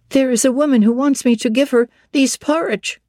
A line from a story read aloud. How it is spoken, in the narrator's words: she exclaimed